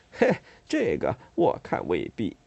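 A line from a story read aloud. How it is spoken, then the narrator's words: Laughing. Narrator (Chinese): 那侍从却笑着说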